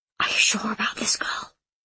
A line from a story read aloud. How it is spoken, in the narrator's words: Horning whispered